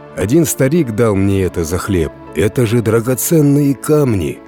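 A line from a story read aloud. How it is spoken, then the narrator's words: Exclaimed. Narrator (Russian): воскликнул крестьянин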